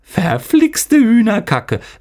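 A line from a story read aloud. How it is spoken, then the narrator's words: Laughing. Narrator (German): lachte Raban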